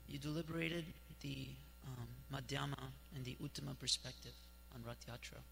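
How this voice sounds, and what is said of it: Hoarse, worn-out voice. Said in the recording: “my voice is a little shot.”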